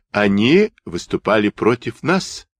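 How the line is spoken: Plain. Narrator (Russian): сказал Фитенгов

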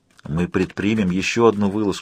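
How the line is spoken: Whispered. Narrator (Russian): прошептал Йен

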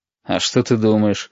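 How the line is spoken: Snorting. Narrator (Russian): хмыкнул Валентин

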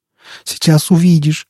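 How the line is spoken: Groaning. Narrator (Russian): стонал Степан

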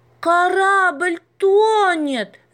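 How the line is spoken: Screaming. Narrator (Russian): завопила Маша

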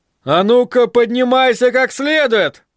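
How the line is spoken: Loud bark. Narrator (Russian): гаркнул он

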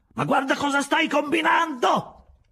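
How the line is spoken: Shouted. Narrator (Italian): gridate

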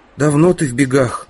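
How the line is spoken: Heavy sigh, question. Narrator (Russian): Худощавый темноволосый парень тяжко вздохнул и спросил

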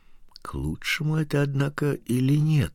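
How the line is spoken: Whisper. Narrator (Russian): прошептал кто-то

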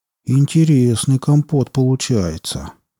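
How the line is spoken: Drawling. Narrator (Russian): протянул Марек

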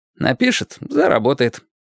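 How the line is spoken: Carefree reply. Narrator (Russian): самым беззаботным тоном отозвался Лесь

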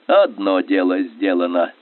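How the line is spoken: Relieved sigh. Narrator (Russian): Скобелев облегченно вздохнул

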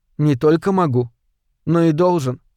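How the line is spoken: Sad. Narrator (Russian): грустно сказал Уильямс-4

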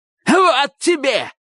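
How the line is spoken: Shouted. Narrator (Russian): крикнул

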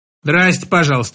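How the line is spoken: Grandmother muttering. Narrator (Russian): буркнула бабушка

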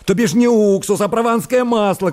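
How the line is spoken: Angry shouting. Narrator (Russian): кричал он, топая ногами

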